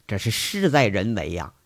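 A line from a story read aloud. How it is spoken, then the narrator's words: Admiring sigh. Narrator (Chinese): 乡长也感叹呢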